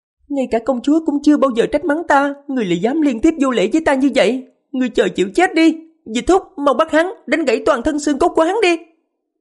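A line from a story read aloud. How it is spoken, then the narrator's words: Shrill offended maid's cry. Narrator (Vietnamese): Á thị nữ của Phong Hoàng dường như rất phản cảm với người xưng hô nàng ta là hạ nhân, kêu lên giọng the thé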